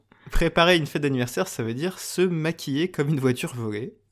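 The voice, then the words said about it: Exaggerated put-on Italian accent. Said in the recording (French): “dis Arrivederci avec le meilleur accent italien du monde ... Est-ce que tu fais Brad Pitt dans Une Glorieuse Bastard ... parler comme ça pendant tout l'épisode”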